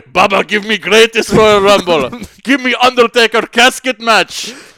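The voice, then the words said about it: Put-on Saudi Arabian accent. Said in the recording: “my little racist accent ... the quintessential Saudi Arabian element ... not the Greatest Royal Rumble like an English person would say it”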